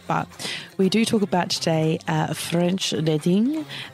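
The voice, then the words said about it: Bad put-on French accent. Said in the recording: “That was a horrible accent.”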